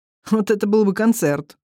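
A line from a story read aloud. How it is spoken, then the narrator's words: Amused snort. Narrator (Russian): хмыкнул брат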